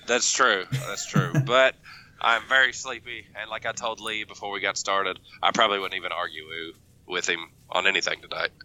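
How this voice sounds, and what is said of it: Sick, congested-sounding voice. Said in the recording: “I'm a little sick, so sorry I sound sick”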